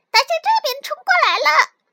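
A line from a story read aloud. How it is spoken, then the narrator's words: Loud. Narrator (Chinese): 松鼠也大声地说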